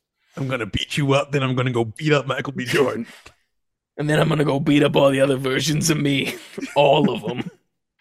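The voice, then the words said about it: Imitated voice with Brooklyn accent. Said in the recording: “Why is he from Brooklyn now? ... It's Jonathan Major's natural accent.”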